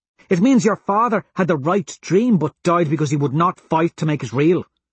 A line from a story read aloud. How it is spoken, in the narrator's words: she says sharply